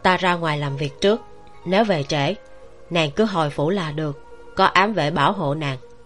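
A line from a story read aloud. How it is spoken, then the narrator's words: Gentle, tender. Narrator (Vietnamese): Tiêu Tụng ôn nhu nói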